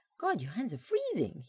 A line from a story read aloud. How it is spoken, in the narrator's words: he yelped